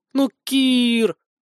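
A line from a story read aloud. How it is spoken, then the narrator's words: Hurt plaintive drawl, young woman. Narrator (Russian): обиженно и жалобно протянула девушка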